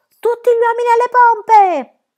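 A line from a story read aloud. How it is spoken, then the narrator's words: Shrieking. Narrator (Italian): Pippi strillò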